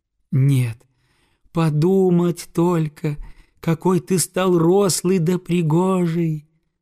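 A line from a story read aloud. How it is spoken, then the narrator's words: Delighted exclamation. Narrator (Russian): воскликнула в восторге матушка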